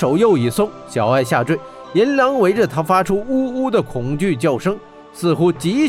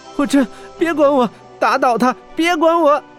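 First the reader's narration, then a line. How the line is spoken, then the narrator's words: Terrified, crying. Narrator (Chinese): 小爱感到极度恐惧，他仍在哭着道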